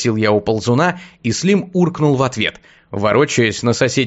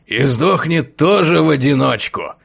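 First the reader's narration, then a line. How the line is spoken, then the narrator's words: Weighty hoarse confident bass. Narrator (Russian): веско прохрипел чей-то уверенный бас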